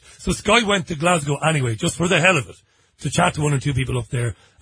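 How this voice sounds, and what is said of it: Strong regional accent. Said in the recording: “my accent is strong and outrageous”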